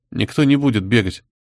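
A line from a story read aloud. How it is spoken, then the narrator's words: Grumbling. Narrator (Russian): буркнул барон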